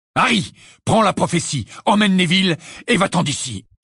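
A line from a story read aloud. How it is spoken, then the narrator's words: Shout. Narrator (French): cria Sirius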